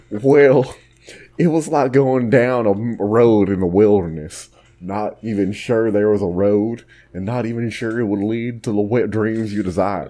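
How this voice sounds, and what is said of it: Cartoonish put-on Texan accent. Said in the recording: “I have to read this in a Texan accent ... make the accent a cartoon”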